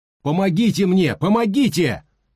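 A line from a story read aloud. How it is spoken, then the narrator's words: Shouting. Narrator (Russian): крикнул Сэнди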